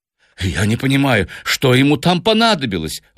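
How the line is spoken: Exclaiming. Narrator (Russian): воскликнул Сомс

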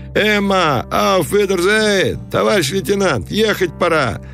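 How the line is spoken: Cheerful ragged soldiers' shouting. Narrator (Russian): голоса солдат, которые весело кричали им в разнобой

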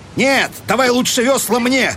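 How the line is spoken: Almost angry shout. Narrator (Russian): крикнул он почти злобно

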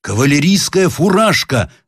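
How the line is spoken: Shout. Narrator (Russian): закричал Сборский

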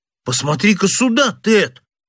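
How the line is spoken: Extremely astonished exclamation. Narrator (Russian): воскликнул младший из сыщиков тоном самого крайнего изумления

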